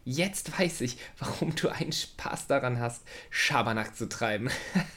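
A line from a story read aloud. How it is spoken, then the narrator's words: Laughing. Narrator (German): lachte Lola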